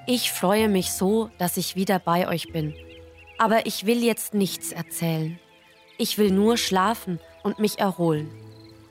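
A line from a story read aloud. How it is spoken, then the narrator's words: Weary, exhausted. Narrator (German): dem die Knie fast den Dienst versagten, winkte müde ab und sagte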